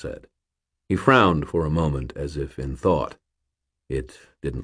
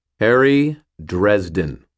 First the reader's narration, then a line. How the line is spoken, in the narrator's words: I said in a clear tone